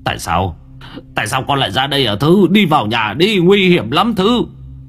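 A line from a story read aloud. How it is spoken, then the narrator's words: Shouting. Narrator (Vietnamese): Ông Long quát lên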